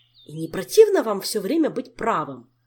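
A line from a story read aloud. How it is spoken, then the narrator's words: Angry exclamation. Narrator (Russian): сердито воскликнул Кантор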